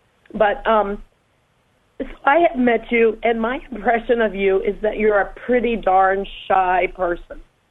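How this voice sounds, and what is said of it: Hoarse voice from laryngitis. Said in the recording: “Pardon my laryngitis.”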